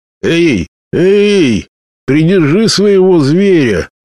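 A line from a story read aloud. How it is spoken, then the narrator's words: Yell. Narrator (Russian): завопил кто-то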